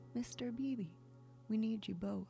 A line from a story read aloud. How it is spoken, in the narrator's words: The driver called out